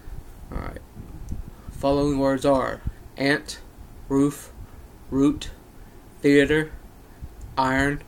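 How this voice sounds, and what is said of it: North Carolina accent. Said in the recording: “Accent Challenge ... I'm from North Carolina.”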